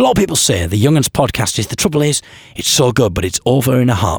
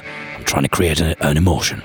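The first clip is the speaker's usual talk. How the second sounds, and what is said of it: Deliberately lowered, deepened voice. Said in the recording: “I'm lowering my voice. My voice is getting lower.”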